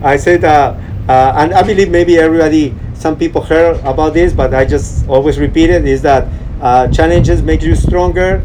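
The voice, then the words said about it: Slight Peruvian accent. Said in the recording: “I have a little bit Peruvian accent”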